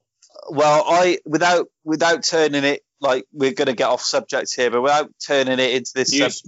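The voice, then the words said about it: Loud, raised voice. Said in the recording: “You've gone proper loud. ... I'm just raising my voice. ... you're just getting heated”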